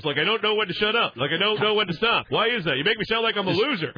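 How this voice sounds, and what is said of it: Imitates another person's voice. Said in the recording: “Tom Arnold ... you do an impression of me”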